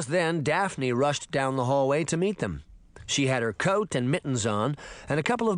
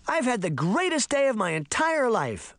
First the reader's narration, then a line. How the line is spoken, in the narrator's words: she screamed